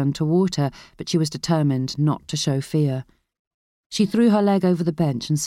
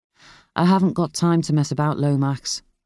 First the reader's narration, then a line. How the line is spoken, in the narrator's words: Tom said flatly